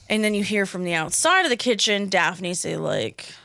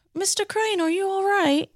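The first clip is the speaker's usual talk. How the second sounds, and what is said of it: Imitates a TV character's British accent. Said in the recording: “You have a good Daphne accent.”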